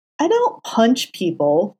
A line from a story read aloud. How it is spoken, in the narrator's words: Foggy exclaimed, frowning at him